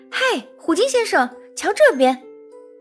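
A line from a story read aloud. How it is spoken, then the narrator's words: Shout. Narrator (Chinese): 一边喊着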